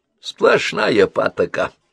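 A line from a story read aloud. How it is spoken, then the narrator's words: Grumbling. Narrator (Russian): проворчал он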